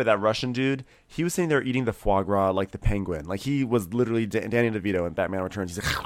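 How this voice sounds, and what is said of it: Usual voice. Nothing is said of it.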